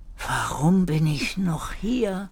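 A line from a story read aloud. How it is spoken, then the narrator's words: Exhausted whisper. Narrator (German): Erik konnte kaum noch sprechen vor lauter Anstrengung und flüsterte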